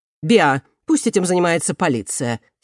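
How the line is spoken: Angry grumbling. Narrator (Russian): сердито проворчал

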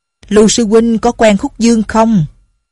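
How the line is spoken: Sudden loud question. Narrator (Vietnamese): Lão mập Đinh Miễn bỗng dưng lớn tiếng hỏi

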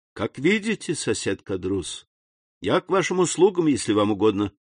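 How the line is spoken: Polite tone masking coldness. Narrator (Russian): отвечал Дантес, с трудом скрывая холодность под любезным тоном

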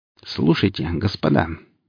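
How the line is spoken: Displeased grumble. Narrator (Russian): недовольно проворчала сталкер

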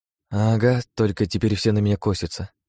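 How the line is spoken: Sad reply. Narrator (Russian): грустно ответила Лия

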